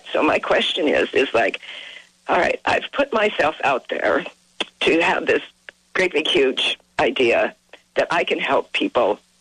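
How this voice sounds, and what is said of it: Strained, sore-sounding voice. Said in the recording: “sorry about my voice, ... but it hurts very bad ... it sounds like you're having a little challenge with it”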